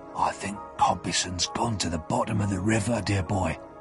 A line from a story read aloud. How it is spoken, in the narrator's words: he whispered to me